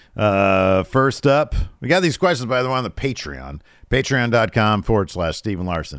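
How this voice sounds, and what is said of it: Rough, worn-out voice. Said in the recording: “my voice is completely trash right now”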